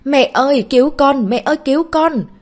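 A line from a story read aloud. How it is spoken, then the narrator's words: Terrified child screaming. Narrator (Vietnamese): cậu bé bỗng nhiên sợ hãi tột độ hét lên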